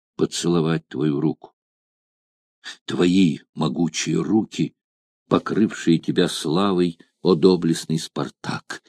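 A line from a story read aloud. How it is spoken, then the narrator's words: Whispering. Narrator (Russian): шептала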